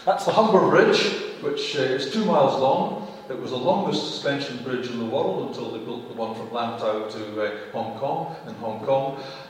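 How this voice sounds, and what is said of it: Scottish accent. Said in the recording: “my accent's Scottish”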